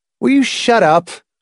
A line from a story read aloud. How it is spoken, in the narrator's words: Hamilton shouted